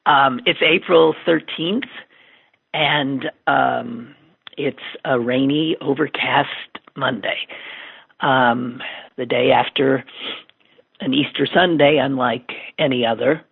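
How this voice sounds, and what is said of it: Voice sounds unwell, rough. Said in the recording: “forgive my voice... I know I don't sound too too good... even though I don't sound great”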